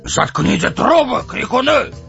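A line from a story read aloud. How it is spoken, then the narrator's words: Barked loudly. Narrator (Russian): гаркнул он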